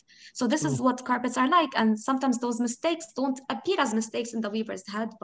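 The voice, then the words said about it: Arabic-accented English. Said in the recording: “I am an Arabic speaker, right? And I have an accent in English because of my multiple experiences with the language. So I learned my grammar from British or English textbooks, and my literature from American textbooks, and my spoken English from my teachers, my Lebanese teachers... So I have a particular accent”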